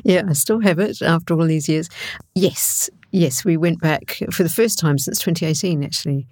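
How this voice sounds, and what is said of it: New Zealand accent. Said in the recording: “As you can tell from ... accent, she may well be from that part of the world. ... You went to New Zealand”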